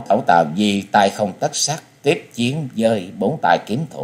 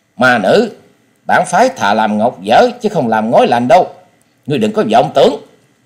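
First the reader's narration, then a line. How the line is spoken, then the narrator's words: Angry reply, mid-fight. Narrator (Vietnamese): Đồng Bách Nhất Kiếm Tây Môn Tuấn giận dữ đáp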